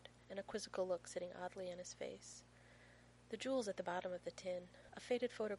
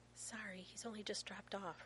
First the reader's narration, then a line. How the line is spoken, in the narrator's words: Rodney whispers